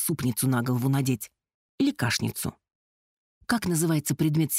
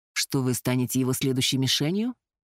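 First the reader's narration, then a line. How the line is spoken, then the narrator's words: Snort. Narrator (Russian): Керт хмыкнул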